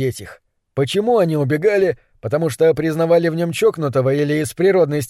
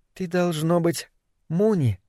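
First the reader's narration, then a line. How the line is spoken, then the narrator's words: Quiet voice. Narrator (Russian): Голос звучал тихо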